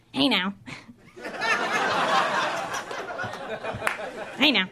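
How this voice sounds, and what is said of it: Imitates a rock singer's voice. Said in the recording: “this is my impression of the lead singer of Smash Mouth after his cat tries to bite him.”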